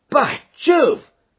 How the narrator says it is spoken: cried my client

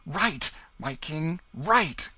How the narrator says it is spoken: cried Tom Canty

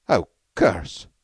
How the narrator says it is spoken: said Beetle uneasily

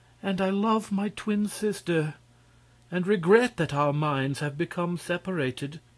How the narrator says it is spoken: she continued sadly

